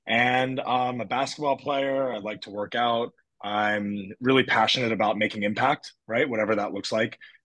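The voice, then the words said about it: American accent. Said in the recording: “I am American, as if you can't tell from the US accent, if there is one.”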